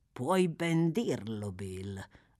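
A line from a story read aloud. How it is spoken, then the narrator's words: Thoughtful murmur. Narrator (Italian): mormorò Fagin pensieroso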